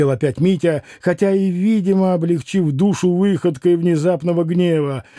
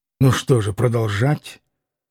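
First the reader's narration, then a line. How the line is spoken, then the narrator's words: Gloomy curt interruption. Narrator (Russian): мрачно оборвал он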